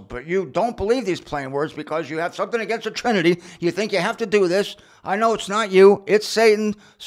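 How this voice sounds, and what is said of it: Raised, loud, yelling voice. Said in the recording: “Sorry I'm raising my voice at you. I should be yelling”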